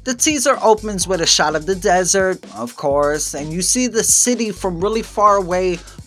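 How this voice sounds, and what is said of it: New York accent. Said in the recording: “I'm from New York. I have a New York accent.”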